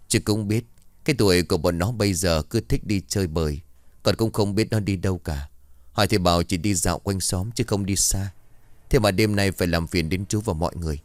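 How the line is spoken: Sighing old man. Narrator (Vietnamese): Ông thở dài rồi bảo

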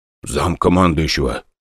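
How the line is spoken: Whispered. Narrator (Russian): шепнул

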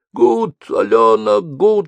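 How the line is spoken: Hot hoarse wheezing. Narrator (Russian): шли в ухо горячие хрипы

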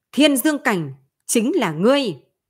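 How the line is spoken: Thunderous echoing shout. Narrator (Vietnamese): hét to như sấm, vang vọng đại điện

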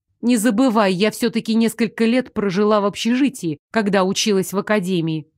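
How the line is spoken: Plain. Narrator (Russian): ответила я

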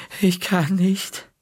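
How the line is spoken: Groaned. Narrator (German): stöhnte

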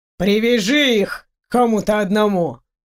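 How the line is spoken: Through gritted teeth. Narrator (Russian): Сквозь зубы процедил ректор

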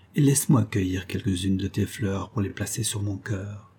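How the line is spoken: Murmuring. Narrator (French): murmura Béatrix

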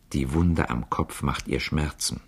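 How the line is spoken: Quiet. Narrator (German): Herr von Galais sagte leise

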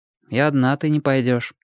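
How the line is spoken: Even, steady tone. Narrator (Russian): сказал Костик все тем же ровным тоном

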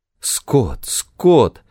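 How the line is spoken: Moaning. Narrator (Russian): простонала Моника

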